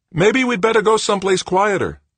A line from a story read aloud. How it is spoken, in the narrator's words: Looking worried, Cardenas shouted over the noise